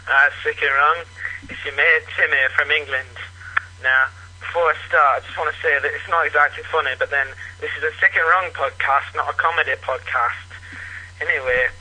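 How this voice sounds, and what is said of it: Unusual regional English accent. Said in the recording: “Where the hell does that accent come from? ... He says England, but I've never heard anything like it. ... like a Scottish guy with a lisp ... I've never heard that accent before. ... there's a lot of eh, from England.”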